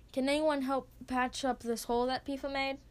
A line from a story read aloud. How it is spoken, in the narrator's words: she asks